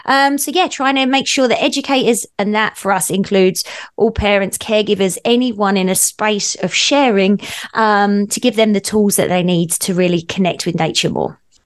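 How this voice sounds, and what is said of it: Non-Canadian accent from overseas. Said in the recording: “as we can tell by your accent, you know, you're not here from Canada ... came from overseas”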